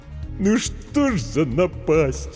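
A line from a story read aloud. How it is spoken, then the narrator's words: Sobbing. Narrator (Russian): Букер всхлипнул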